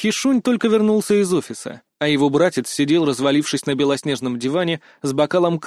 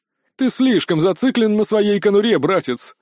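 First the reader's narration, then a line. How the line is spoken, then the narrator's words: Laughing. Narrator (Russian): рассмеялся Пак Минхо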